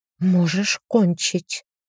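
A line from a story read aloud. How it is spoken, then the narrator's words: Whisper. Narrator (Russian): пьющая кровь шепнула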